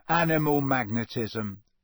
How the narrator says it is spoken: said Ron gloomily

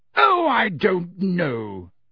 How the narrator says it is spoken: said Madame Bones in her booming voice

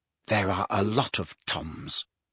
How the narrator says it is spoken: muttered Riddle

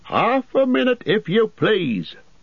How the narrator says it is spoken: shouted the man over his shoulder

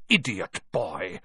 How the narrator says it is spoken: snarled Snape

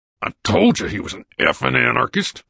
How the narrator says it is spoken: the vice president growled

